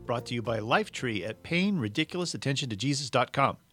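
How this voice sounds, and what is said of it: Words said very fast. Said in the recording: “I love it when I say it fast.”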